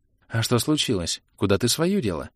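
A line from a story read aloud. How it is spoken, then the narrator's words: Barely audible question. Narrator (Russian): Едва слышно спросила Илли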